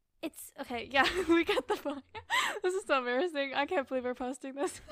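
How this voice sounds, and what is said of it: Usual voice. Nothing is said of it.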